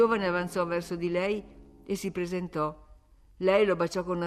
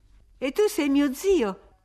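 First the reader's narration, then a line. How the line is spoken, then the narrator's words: Female exclamation. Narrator (Italian): esclamò lei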